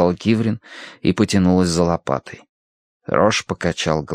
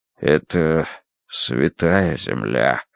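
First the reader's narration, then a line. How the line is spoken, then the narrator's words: Dull, muffled voice. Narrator (Russian): проговорил он глухо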